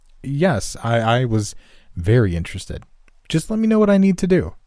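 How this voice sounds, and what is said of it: More professional voice. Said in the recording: “switched over to my more professional voice to try and make a good impression.”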